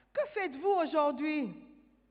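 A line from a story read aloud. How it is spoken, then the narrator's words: Shouting. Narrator (French): Monsieur lapin cria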